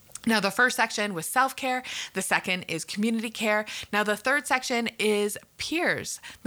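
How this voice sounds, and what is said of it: Canadian accent. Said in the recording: “I'm from Canada and probably knew that from my accent.”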